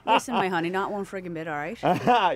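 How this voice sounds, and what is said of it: East Coast accent. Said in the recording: “accent from Jax. Give us a little, give us a little of that East Coast.”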